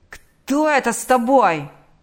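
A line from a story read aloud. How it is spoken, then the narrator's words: Yelling. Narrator (Russian): заорал он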